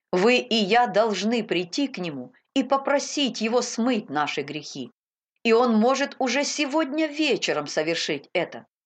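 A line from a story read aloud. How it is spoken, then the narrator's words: Plain. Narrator (Russian): так сказал проповедник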